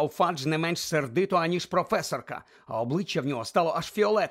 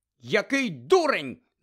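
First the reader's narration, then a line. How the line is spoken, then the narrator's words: Shouted. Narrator (Ukrainian): закричала професорка МакГонагал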